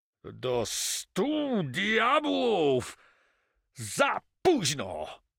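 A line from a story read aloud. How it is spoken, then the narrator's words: Furious roar. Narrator (Polish): ryknął rozjuszony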